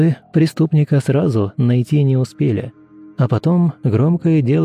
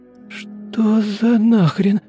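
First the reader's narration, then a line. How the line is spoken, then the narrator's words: Suddenly hoarse, to herself. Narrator (Russian): внезапно охрипшим голосом сказала сама себе Дарья Павловна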